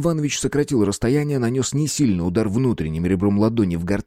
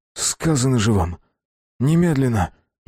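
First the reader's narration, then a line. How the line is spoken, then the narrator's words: Shaky, nauseous repetition. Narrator (Russian): нетвердым голосом повторил Марк, борясь со вновь подступившей тошнотой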